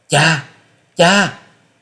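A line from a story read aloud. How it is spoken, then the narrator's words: Anguished wail. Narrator (Vietnamese): Tư Đồ Hồng thấy cha bị thương liền gào lên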